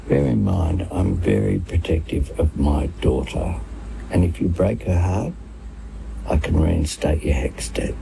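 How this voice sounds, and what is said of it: Whispering. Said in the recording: “he's whispering ... in his ear ... Whispering into the... The boyfriend's ear.”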